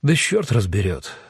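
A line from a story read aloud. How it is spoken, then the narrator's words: Sighing. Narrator (Russian): вздохнул Эдо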